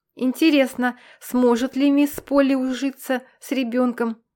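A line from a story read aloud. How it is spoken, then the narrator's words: Plain. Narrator (Russian): спросил он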